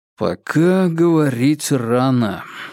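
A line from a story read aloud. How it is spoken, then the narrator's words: Cautious drawl. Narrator (Russian): осторожно протянул Вербин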